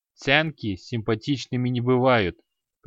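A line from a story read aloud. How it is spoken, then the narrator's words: Dismissive snort. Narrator (Russian): пренебрежительно фыркнул Креол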